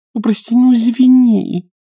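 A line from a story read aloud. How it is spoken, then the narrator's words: Near-pleading voice. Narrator (Russian): чуть ли не взмолилась Клавдия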